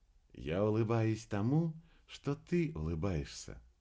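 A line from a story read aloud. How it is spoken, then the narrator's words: Soft young woman's voice. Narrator (Russian): мягко ответила девушка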